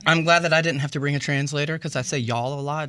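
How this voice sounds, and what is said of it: Southern US accent. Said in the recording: “So I'm from Atlanta, Georgia. ... I can tell by your accent. ... You can hear it.”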